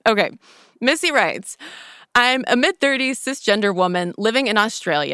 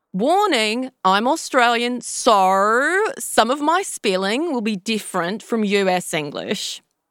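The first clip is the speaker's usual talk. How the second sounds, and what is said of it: Put-on Australian accent. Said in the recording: “I gotta do this ... end of accent. And my apologies to Missy and all other Australians listening.”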